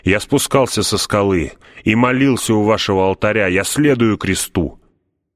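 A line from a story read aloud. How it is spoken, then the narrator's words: Desperate shout. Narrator (Russian): сознавая, что это мой последний шанс или окончательное осуждение, я закричал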